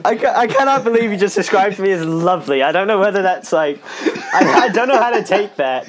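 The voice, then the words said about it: British accent. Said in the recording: “It's your British accent... how different ... accent is between all the podcast episodes... Every time we talk, he has a different accent.”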